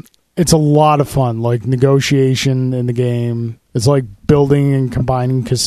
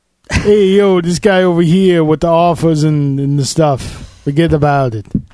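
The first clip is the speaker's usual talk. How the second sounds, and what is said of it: Put-on bad mobster movie accent. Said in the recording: “bad mobster movie accent”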